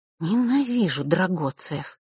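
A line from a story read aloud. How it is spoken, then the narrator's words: Through gritted teeth. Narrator (Russian): процедила Василиса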